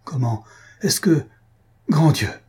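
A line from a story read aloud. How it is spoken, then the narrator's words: Sudden exclamation. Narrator (French): s'écria-t-il tout à coup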